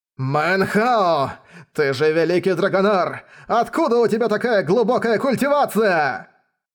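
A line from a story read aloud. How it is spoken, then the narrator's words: High priest's furious shout. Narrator (Russian): Взбешенно закричал верховный жрец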